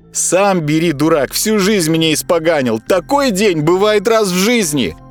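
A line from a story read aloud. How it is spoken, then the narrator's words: Shouting. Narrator (Russian): кричала Верочка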